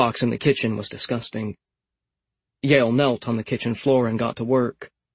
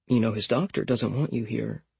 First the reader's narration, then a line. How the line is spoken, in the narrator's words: he whispered to Roscoe